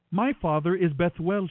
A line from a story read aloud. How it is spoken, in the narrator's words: replied